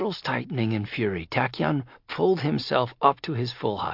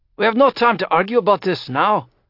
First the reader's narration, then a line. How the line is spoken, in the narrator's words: Hiram said impatiently